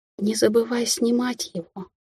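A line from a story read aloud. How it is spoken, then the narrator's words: Whispered. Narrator (Russian): шепнула Меган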